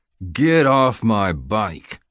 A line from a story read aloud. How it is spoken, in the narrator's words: growled